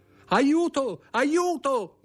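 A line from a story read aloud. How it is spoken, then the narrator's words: Shouted for help. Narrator (Italian): gridò Louise d'Armilly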